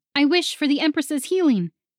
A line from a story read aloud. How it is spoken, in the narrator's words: Voana yelled